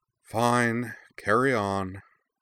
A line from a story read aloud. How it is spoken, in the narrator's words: Katara sighed again, deeper this time, and said with heavy mock resignation